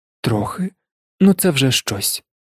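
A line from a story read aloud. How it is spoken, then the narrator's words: Sighing. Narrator (Ukrainian): зітхнув Ронан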